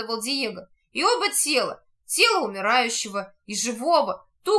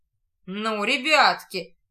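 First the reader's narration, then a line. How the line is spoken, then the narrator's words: Mocking, instructive, domineering. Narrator (Russian): Насмешливо, в виде наставления, говорит неумолимый негр, которому теперь никто не осмелится противиться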